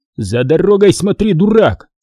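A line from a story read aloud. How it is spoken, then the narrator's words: Shouted. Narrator (Russian): крикнул я ему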